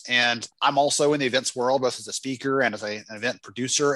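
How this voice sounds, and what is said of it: American Southern accent. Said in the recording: “you've got a wonderful Southern accent ... you sound beautiful”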